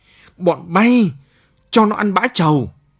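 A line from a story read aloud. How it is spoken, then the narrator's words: Sharp shriek. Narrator (Vietnamese): thằng dỗ như bị bọ cạp châm đít, nó rít lên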